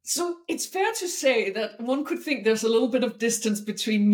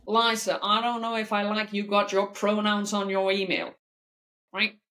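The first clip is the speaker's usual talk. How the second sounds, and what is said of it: Poor put-on American accent. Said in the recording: “a horrible American accent”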